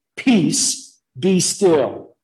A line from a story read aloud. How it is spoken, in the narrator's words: calmly and with authority in his voice, Jesus said to the sea